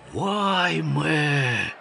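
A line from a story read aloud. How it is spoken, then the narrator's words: Exhaled in unison. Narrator (Russian): дружно выдохнули все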